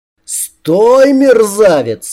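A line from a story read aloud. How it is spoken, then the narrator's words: Roaring. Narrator (Russian): взревел Керриган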